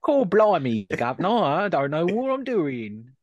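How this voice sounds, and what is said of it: Put-on Cockney-style English accent. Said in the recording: “This is a human accent... I'm glad you did that, because I was going to try and do it and I was going to fail right massively.”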